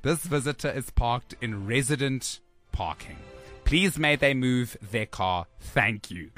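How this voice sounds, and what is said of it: Put-on accent reading a message. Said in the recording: “I'm just adding an accent, but I'm sure it's not very, I don't think it's very far off.”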